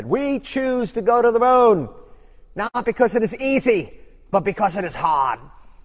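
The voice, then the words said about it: Put-on Boston accent. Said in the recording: “Trying to do my Boston accent there.”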